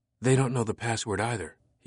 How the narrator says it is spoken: he whispered

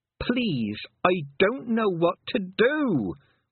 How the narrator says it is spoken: wailed Tiffany

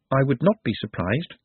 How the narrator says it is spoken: said Nut calmly

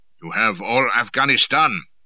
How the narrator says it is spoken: growled Sultan Jan

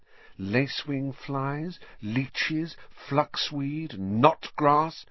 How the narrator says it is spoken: she murmured

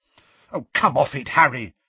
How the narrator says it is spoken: said Hermione angrily

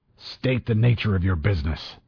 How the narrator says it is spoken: the voice snapped nastily

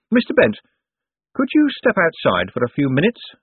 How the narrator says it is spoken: said Moist brightly

